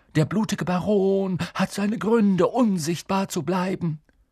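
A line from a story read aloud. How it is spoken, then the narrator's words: Hoarse whisper. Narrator (German): sagte er heiser flüsternd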